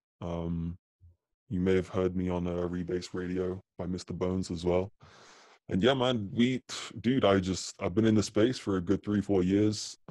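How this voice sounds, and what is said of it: British accent. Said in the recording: “I'm based here in the UK, if you can't tell from my accent.”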